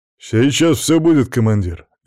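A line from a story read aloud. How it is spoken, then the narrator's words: Cheerful soldier. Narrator (Russian): весело откликнулся один из бойцов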